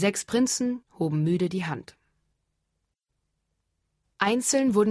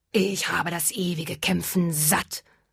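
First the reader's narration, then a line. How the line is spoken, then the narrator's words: Hissing dragon. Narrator (German): fauchte der Drache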